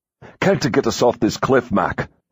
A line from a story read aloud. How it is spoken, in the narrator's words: He snarled